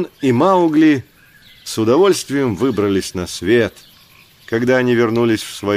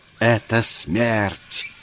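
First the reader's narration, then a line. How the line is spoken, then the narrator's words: Furious hiss. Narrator (Russian): Она с бешенством ожесточенно шипела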